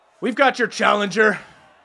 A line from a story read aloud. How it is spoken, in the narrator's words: Skullis shouts out